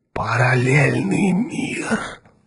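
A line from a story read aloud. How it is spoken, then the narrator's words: Fearful whisper. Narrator (Russian): со страхом прошептал Эзра Гурни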